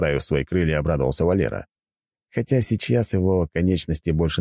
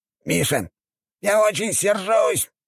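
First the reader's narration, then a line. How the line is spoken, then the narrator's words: Squeaky. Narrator (Russian): запищал он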